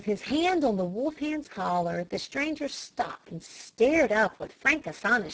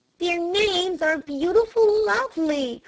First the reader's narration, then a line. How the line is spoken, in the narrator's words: cried Flame